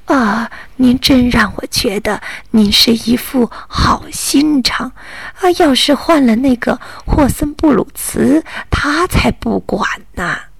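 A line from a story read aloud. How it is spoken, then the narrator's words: Admiring praise. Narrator (Chinese): 奶奶不断的赞叹道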